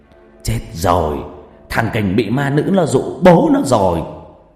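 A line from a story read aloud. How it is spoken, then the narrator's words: Startled shout. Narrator (Vietnamese): Ông Nhân giật mình hét lên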